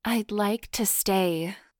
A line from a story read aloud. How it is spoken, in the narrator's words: she purred hotly